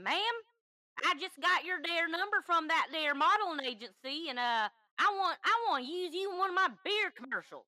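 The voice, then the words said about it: Bad fake Southern accent. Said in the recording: “a very fake Southern accent ... Apparently it was bad. It was bad. I did the worst accent I could.”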